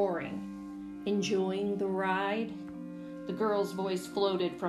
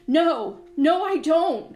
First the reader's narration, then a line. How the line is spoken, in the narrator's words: I wailed